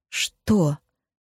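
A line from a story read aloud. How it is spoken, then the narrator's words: Trembling voice. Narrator (Russian): Дрожащим голосом спросила Розмари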